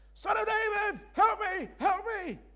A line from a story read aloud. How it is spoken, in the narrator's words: you both start screaming out